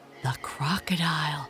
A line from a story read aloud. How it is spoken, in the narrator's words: he gasped